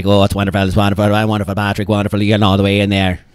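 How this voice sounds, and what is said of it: Put-on Irish accent, auctioneer-like. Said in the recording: “I kind of took on that Irish accent just then ... Felt auctioneery to me”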